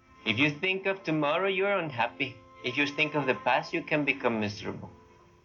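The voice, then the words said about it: Puzzling foreign accent, possibly Indian. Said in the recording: “what accent is that? ... is that Indian? ... But he doesn't look Indian ... Is he faking it?”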